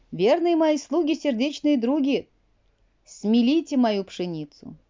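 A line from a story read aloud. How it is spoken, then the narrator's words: Shout. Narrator (Russian): Потом крикнула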